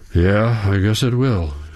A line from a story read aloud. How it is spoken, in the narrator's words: he says, letting out a deep sigh